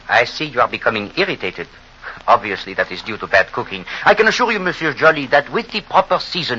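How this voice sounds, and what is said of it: Hercule Poirot's exaggerated Belgian accent. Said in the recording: “with that ridiculous accent ... The accent, I assure you, is of the greatest authenticity ... I am Belgian”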